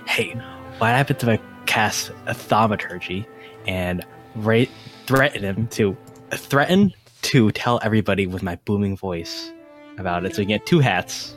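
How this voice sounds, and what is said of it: Whispering. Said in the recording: “I'm going to whisper to”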